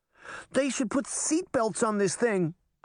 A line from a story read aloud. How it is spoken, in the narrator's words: Daphne cried